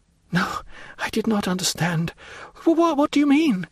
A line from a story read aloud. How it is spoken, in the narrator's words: stammered the unhappy woman, completely overwhelmed